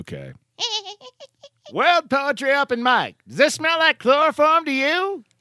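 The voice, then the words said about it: Put-on mid-Atlantic accent. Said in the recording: “That's my Atlantic voice. That's how I'm understandable by both people in the UK and in the United States.”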